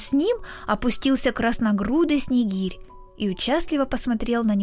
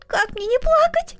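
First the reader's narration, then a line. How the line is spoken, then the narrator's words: Sobbing. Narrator (Russian): всхлипнул Коля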